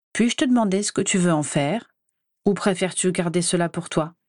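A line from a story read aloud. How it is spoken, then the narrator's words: Somewhat cold question. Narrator (French): s'enquit-il un peu froidement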